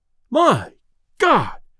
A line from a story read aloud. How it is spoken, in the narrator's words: exclaimed Delaney as he fell back